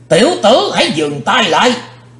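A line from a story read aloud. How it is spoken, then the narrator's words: Sudden terrifying shout. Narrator (Vietnamese): đột nhiên có tiếng quát thật khiếp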